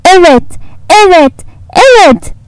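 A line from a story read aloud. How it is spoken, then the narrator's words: Shouting. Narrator (Turkish): diye bağırdı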